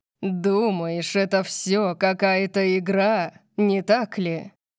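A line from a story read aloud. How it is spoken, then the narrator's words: Growled. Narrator (Russian): Прорычал он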